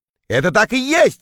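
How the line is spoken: Shouted. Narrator (Russian): крикнул я

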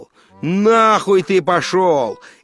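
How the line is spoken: Shout. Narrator (Russian): крикнул

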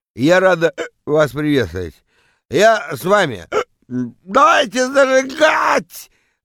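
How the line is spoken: Yelling into microphone. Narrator (Russian): Вопит она в микрофон

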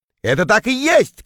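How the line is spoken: Shouted. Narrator (Russian): крикнул я

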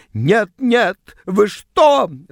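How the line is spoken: Shrill squeal. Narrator (Russian): взвизгнула она

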